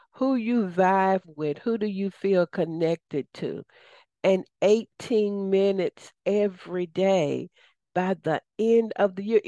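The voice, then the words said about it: Southern US accent. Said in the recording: “It was your southern accent but my southern accent”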